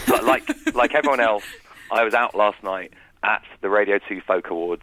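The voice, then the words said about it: Rough, husky country-singer-like voice. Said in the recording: “a little bit hungover ... You can hear from my voice. I've developed the voice of a country singer, I think.”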